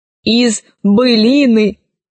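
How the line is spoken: Plain robot voice. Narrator (Russian): сказал начитанный робот

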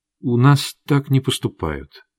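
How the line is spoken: Quiet. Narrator (Russian): тихо сказала она

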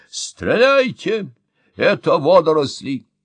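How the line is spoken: Professor shouting. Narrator (Russian): крикнул профессор

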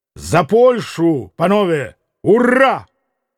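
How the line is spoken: Shouted. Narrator (Russian): прокричал Митя

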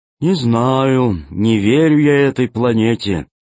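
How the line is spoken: Gloomy. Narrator (Russian): мрачно сказал Зеленый

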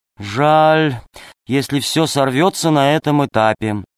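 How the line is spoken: Sighing old woman. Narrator (Russian): вздохнула бабушка

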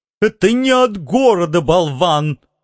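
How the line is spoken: Barked. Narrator (Russian): рявкнул мистер И

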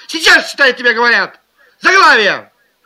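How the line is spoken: Shouting. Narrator (Russian): Пока она кричала

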